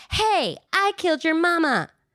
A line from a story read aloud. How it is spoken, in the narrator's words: she shouted